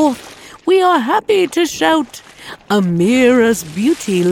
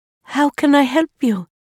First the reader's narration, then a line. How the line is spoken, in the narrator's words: Amira asked, her voice gentle and welcoming